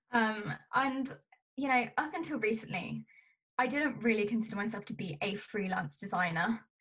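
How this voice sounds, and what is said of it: British accent. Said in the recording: “I'm from the UK, as you can probably tell from my voice.”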